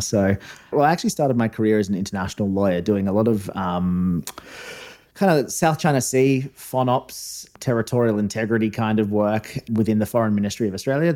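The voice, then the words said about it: Mild, fading Australian accent. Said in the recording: “I was an Australian diplomat. You can probably tell by the accent, although I'm told it's fading over time.”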